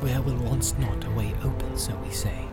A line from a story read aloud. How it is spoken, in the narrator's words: he whispered